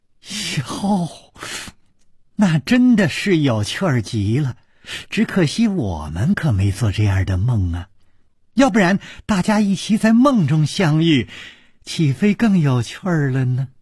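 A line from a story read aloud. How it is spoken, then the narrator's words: Smiling. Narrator (Chinese): 柳无眉笑着说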